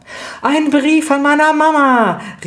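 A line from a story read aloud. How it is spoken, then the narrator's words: Calling out. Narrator (German): rief Lydia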